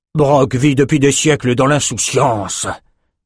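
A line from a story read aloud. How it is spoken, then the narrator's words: Growled. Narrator (French): grogna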